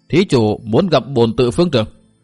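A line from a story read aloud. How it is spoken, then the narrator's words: Startled old monk's stern question. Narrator (Vietnamese): Hai lão tăng giật nảy người, sững sờ một lúc, rồi một lão tăng gằn giọng hỏi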